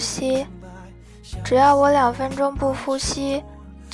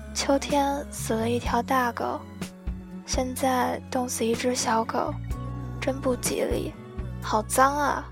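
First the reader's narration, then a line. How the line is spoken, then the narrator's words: Woman muttering. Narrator (Chinese): 一个大婶 嘀咕了一句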